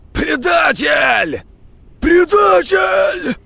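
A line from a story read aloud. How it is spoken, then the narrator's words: Group shouting. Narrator (Russian): кричали они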